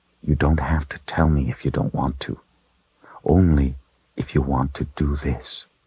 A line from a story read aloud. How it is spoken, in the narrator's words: said softly